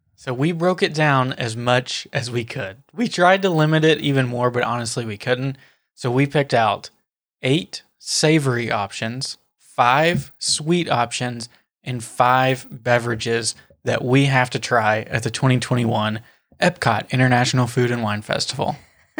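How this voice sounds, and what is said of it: PA announcer style voice. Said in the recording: “I love that was like your announcer voice. ... I'm a PA announcer.”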